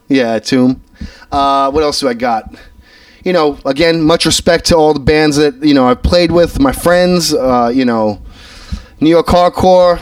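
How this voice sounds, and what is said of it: Thick New York accent. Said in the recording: “my New York accent is too thick for you”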